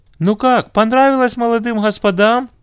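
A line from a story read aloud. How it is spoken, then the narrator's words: Shout after someone. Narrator (Russian): крикнула кассирша им вслед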